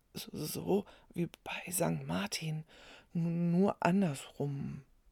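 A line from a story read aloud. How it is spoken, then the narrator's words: Boy whispering, teeth chattering. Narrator (German): flüsterte der Junge mit klappernden Zähnen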